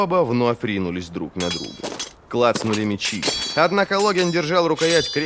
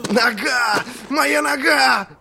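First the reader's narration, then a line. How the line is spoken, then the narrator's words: Howl of pain. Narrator (Russian): взвыл он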